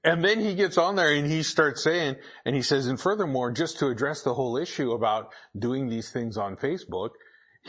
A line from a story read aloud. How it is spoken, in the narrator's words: he yells into the microphone